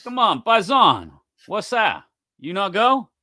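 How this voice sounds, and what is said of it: Poor put-on Italian accent. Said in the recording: “Terrible Italian accent I just did”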